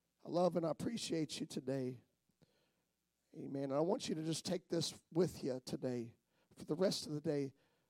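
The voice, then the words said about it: Rough, strained voice. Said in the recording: “My voice is rough today ... My voice just ain't going to be much today”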